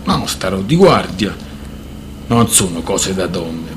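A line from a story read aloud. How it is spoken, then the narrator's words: Muttered. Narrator (Italian): borbottò Hydak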